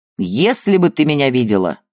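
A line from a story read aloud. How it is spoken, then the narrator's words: Laughing loudly. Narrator (Russian): хохотал он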